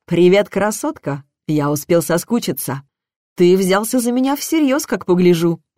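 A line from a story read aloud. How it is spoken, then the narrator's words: Snorting. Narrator (Russian): Хмыкнула я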